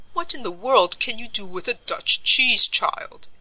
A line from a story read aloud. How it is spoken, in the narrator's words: exclaimed old Mr